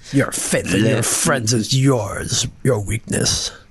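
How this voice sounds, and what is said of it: Emperor Palpatine character voice. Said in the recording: “Emperor Palpatine impression ... That's the bad Emperor ... I can't do impressions.”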